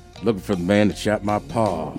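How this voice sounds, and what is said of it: Put-on southern drawl. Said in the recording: “say it in that southern drawl? ... Oh, yeah.”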